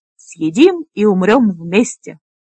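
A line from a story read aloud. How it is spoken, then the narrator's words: Loud laughter. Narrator (Russian): Лесса расхохоталась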